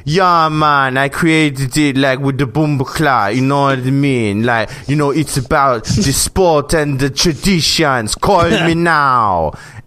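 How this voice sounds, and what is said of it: Fake-sounding put-on Jamaican accent. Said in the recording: “his Jamaican accent, which kind of sounds like Miss Cleo with her, like, fortune-telling readings ... It sounds so phony ... that sounds really fake”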